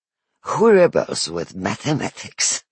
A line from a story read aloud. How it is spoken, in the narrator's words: She laughs